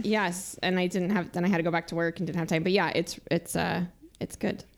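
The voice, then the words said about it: Slightly scratchy, unwell voice. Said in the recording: “You might hear it in my voice. I hope I don't sound too scratchy, but our household has been a little ill”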